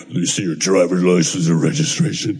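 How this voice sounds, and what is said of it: Deep intimidating police officer voice. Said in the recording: “that deep voice.”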